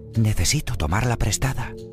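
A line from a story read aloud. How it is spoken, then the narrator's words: Whisper. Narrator (Spanish): susurró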